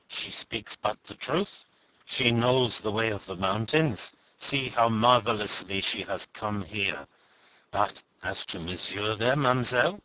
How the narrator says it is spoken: they murmured to one another

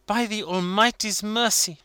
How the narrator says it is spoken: she exclaimed

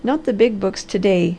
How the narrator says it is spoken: laughed the Harvester

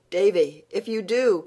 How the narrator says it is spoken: cried Anne, realizing her mistake

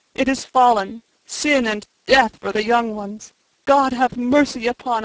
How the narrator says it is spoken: he sobbed

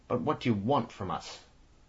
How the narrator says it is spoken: He exclaimed in a deadened voice

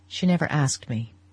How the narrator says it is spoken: he said, in a low voice

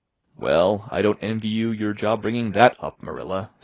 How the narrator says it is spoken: said Mrs

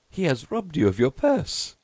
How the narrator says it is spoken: they laughed

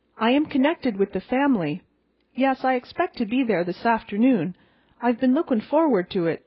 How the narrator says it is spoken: she told us eagerly

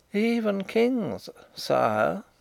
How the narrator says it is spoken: said Rupert in a moralizing tone

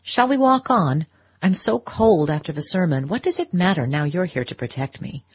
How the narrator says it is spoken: rejoined in a lighter tone

